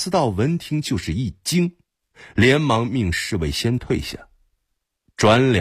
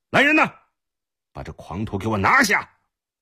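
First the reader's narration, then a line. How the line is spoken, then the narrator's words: Shouting. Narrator (Chinese): 贾似道大喊道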